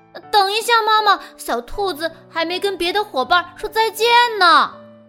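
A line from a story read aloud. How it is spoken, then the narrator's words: Shouting while running off. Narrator (Chinese): 比利呢，却一边转身冲上楼，一边喊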